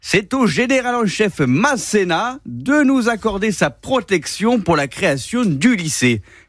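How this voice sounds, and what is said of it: Put-on accent, done well. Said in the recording (French): “Pourquoi je lui fais un accent? ... tu le fais vachement bien”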